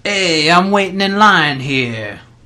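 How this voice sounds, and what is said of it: Good New York accent. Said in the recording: “That's good New York accent.”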